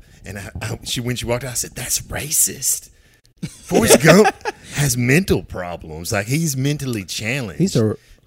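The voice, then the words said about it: Accent likened to Forrest Gump. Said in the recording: “the nurse told me that I talked like Forrest Gump ... She said my accent sounds like I'm slow.”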